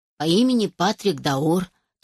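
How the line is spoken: Mocking young man. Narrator (Russian): насмешливо добавил молодой мужчина

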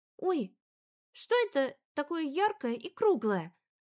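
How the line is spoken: Breathless exclamation. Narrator (Russian): воскликнула Жужа, еле поспевая за воспитательницей

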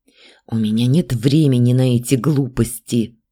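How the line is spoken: Hissing young dragon. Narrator (Russian): прошипел молодой дракон

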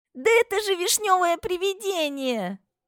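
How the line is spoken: Shouting in sudden realization. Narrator (Russian): Закричали коты и кошки, поняв, в чем дело

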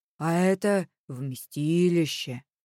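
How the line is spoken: Solemn proclamation. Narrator (Russian): торжественно провозгласил Игнат

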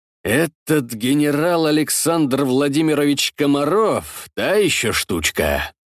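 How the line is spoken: Tired, slightly upset. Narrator (Russian): Голос Судейкина звучал устало и слегка расстроено

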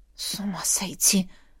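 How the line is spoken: Mutter. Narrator (Russian): пробормотала она

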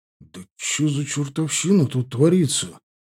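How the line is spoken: Whisper. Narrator (Russian): прошептал Малюга

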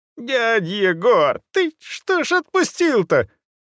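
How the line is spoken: Young man howling. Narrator (Russian): взвыл молодой человек

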